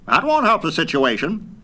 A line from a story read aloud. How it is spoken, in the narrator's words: snapped the general with cold military logic